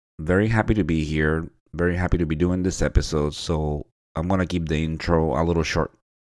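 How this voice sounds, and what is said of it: Voice sounds different from a cold. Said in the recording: “tell by my voice, ... I'm fighting a little bit of a cold, so that's why it might sound a little different”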